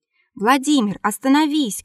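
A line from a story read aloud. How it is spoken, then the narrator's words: Shouting. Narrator (Russian): кричал Марко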